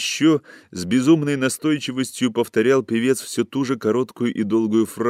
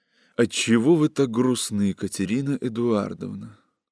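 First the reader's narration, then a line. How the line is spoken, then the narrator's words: Quiet whisper. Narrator (Russian): Павел тихо прошептал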